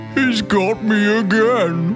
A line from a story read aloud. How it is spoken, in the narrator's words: was the crocodile's moan